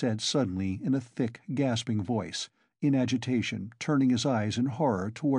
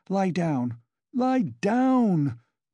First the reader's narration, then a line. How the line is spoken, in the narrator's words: cried Katerina Ivanovna